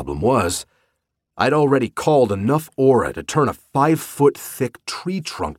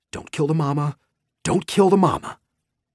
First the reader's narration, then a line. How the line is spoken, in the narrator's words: muttering aloud